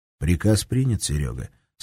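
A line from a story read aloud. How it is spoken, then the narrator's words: Calm. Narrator (Russian): спокойно кивнул Герман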